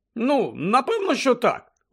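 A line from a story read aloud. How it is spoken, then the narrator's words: Exclaimed. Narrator (Ukrainian): вигукнув Джордж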